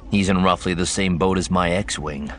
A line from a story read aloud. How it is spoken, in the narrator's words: Luke said dryly